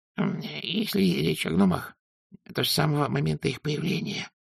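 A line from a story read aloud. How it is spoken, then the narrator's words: Whispering. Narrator (Russian): прошептал Дубинс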